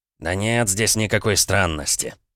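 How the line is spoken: Annoyed grunt. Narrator (Russian): раздосадованно хмыкнул староста

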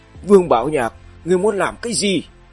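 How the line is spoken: Trembling terrified scream. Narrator (Vietnamese): Khương Lâm toàn thân run rẩy như bị điện giật, miệng gào lên

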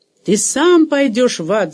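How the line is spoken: Yelling back. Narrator (Russian): заорал в ответ Дэнни

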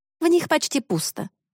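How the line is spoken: Snorting. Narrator (Russian): фыркнула Корделия

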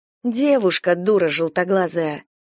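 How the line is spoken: Dropping to whisper. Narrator (Russian): Голос Харахак упал до шепота

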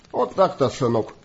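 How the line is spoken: Grim smirk. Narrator (Russian): мрачно усмехнулся Чарли

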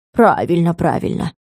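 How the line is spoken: Grumbled. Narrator (Russian): буркнул тот на меня

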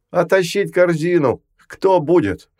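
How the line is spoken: Yelling. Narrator (Russian): Орали

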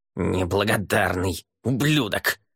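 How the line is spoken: Growled. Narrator (Russian): прорычал он

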